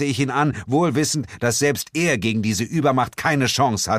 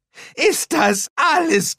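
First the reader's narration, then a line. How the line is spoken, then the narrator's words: Shrieking. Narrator (German): kreischte Shaw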